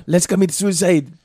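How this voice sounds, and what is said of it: Bad put-on German accent. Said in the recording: “that was a horrible German accent ... That's French.”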